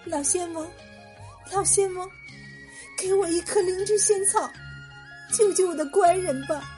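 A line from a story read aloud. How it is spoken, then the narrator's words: Crying, pleading. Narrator (Chinese): 他就哭着向南极仙翁央求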